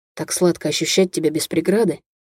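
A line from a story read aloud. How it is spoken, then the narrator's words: Hoarse rasp. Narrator (Russian): Прохрипел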